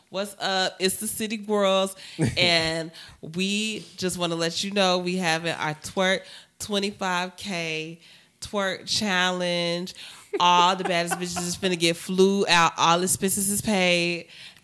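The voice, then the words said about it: Imitates a rap duo's voice. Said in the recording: “my City Girls impression”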